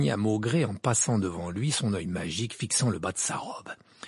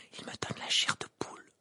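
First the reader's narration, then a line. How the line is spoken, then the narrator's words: Whispered. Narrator (French): murmura Parvati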